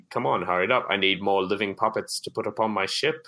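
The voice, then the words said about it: Evil villain character voice. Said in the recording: “Evil voice.”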